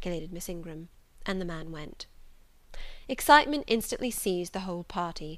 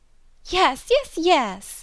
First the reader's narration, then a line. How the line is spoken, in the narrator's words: cried all the juveniles, both ladies and gentlemen